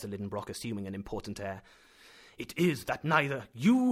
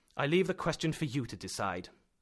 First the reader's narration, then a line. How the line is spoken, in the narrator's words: replied sharply